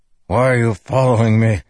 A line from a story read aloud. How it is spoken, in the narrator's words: Teft growled